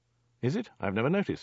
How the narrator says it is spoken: said Dirk

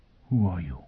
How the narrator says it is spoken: Foyle whispered

